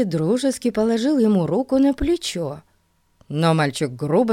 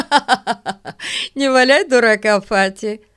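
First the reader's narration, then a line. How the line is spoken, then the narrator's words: Laughing speech. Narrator (Russian): смеясь, сказал Ларри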